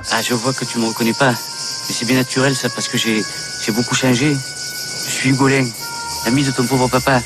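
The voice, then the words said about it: Put-on Marseille accent. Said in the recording (French): “pas simple de reproduire cet accent chez Pagnol ... l'accent marseillais, c'est le R”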